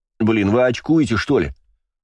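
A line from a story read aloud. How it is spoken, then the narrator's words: Indignant shout. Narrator (Russian): возмущенно выкрикнул Бельфигор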